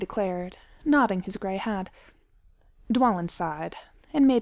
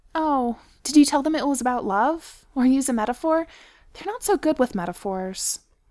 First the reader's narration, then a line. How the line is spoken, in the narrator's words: Ori said sadly